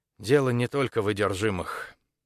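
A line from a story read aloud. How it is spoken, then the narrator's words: Sighing. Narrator (Russian): декан вздохнула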